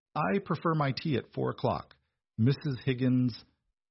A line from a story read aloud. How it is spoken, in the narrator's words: Beatrice said, her voice clear and carrying perfectly in the cavernous space